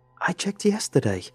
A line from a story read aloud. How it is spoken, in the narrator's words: cried